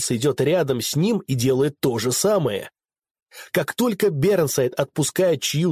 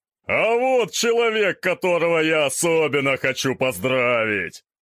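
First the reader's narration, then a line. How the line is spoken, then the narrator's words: Thunderous announcement. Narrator (Russian): возвещает он громовым голосом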